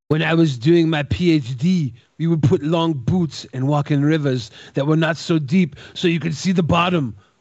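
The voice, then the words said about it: Imitates another person's voice. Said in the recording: “do your best JF impersonation ... I'm not a great JF impersonator.”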